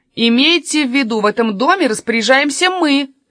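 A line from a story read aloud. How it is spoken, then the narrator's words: Shout. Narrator (Russian): крикнул Каспер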